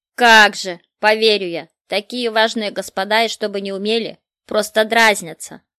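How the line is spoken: Grumbling. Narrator (Russian): Проворчал Мартын

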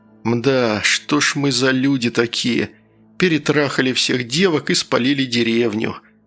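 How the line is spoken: Sad tone. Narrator (Russian): сказал я грустным тоном

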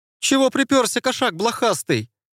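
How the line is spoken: Shrill hysterical squeak. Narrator (Russian): пропищал парень голосом, свойственным больше истеричным дамам, нежели крепкому представителю сильного пола

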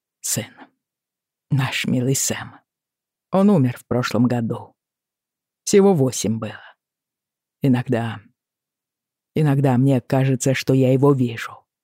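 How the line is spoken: Quiet. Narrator (Russian): закончил мистер Мартин тихо

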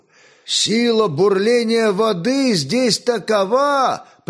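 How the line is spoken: Shout into ear. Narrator (Russian): прокричал Славомир на ухо другу

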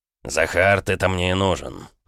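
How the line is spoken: Speaking through teeth. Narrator (Russian): процедил граф

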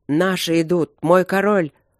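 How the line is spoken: Growling voice. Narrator (Russian): раздался рычащий голос Ровента

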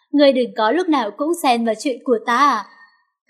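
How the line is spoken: Loud laughing. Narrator (Vietnamese): Cảnh Mân Sinh há miệng cười to

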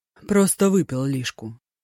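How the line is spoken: Calm explanation. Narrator (Russian): спокойно пояснил Дзяо Тай

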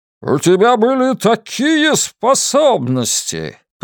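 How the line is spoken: Booming voice. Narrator (Russian): прогремел

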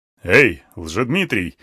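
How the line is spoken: Chuckling elephant. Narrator (Russian): хохотнул слон

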